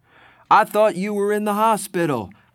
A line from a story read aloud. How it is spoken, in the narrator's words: I yelled